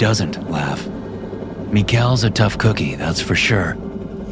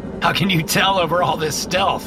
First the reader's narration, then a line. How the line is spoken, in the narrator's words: I laugh